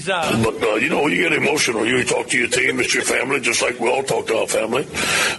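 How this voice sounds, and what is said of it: Louisiana Cajun accent. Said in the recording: “He's got the accent, too. He's got the Louisiana accent. ... Cajun. ... So Cajun.”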